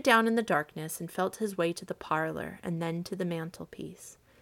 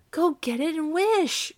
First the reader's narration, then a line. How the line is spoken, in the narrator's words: cried his wife, quivering with excitement